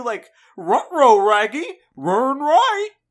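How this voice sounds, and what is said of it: Scooby-Doo cartoon dog voice. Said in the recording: “what does a dog voice sound like? ... Is it like Scooby-Doo?”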